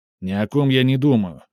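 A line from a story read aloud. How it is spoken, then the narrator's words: Sharp interruption. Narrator (Russian): резко оборвал его Сменцев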